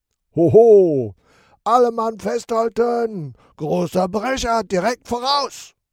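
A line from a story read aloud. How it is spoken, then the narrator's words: Shouting over a storm. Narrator (German): brüllt Captain Sharky gegen den Sturm an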